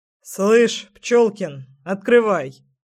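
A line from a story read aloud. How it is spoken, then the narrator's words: Stern fatherly command. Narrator (Russian): скомандовал отец довольно грозно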